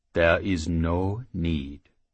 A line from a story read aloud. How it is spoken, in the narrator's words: the halfling said calmly